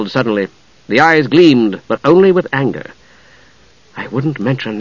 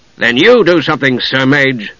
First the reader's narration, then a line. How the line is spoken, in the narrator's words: Steele said harshly